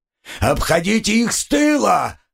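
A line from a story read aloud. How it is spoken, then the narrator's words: Shouted command. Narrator (Russian): прокричал Мураза остальным воинам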